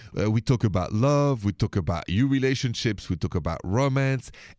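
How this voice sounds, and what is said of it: French accent. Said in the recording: “My accent is French.”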